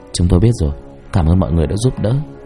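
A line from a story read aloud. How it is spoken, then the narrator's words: Soft reply. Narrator (Vietnamese): Hào khẽ trả lời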